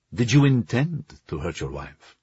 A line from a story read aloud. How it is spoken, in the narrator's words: Georgi asked plainly